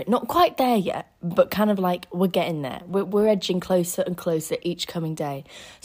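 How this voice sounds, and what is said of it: Rough, unwell-sounding voice. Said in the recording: “I know my voice sounds horrible. It's just, I think I'm on the edge of an illness”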